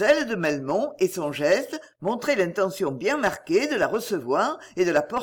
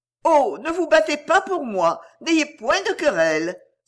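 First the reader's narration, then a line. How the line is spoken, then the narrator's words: Half naive, half affected. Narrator (French): s'écria Indiana d'un ton moitié ingénu, moitié affecté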